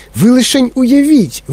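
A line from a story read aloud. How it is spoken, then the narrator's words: Exclamation. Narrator (Ukrainian): вигукнув містер Вонка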